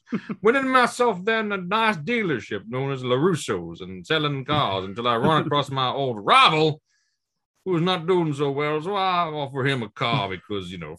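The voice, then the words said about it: Exaggerated Southern US accent. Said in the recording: “my accent's going even further down south ... Foghorn Leghorn ... this kind of accent”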